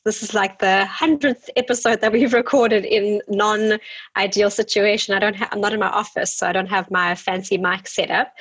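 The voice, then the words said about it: Nasal voice from a cold. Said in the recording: “I've got a little bit of a cold. ... if I'm all nasally”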